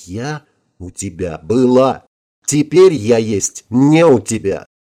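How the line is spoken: Slow, contemptuous. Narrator (Russian): ее губы презрительно искривились и медленно произнесли

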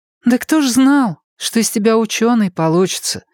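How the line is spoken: Sighing. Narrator (Russian): вздохнула Настя

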